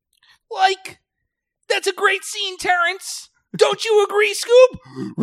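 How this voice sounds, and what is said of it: Cartoon voice impression of Shaggy. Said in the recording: “It's a good impression. ... It's a great impression.”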